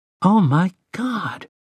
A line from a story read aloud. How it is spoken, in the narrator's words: Jake sighed